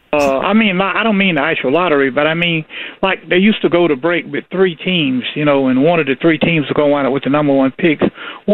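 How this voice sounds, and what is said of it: Southern Georgia accent. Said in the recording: “You from down south? ... I hear the Georgia accent. ... Didn't sound Connecticut.”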